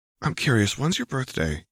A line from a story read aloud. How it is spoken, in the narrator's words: He asked, whispering in her ear